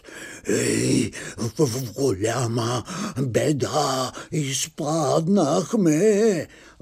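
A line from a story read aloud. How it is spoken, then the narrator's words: Whispering. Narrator (Bulgarian): стопаните да си шепнат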